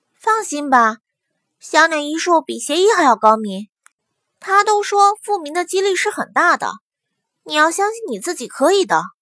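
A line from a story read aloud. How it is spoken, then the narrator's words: Comforting. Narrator (Chinese): 祸水 安慰她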